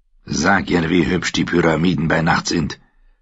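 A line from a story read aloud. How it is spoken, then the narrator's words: Slave trader's growl. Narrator (German): knurrte der Sklavenhändler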